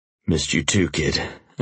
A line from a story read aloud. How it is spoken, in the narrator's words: I said hoarsely